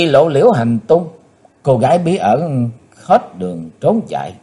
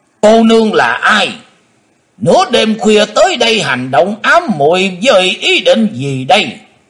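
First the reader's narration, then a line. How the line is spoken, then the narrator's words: Deep heavy shout. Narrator (Vietnamese): tiếng thét trầm nặng bên tai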